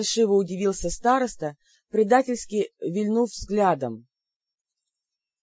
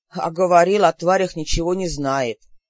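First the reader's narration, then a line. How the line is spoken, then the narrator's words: Contemptuous snort. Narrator (Russian): презрительно фыркнул Лин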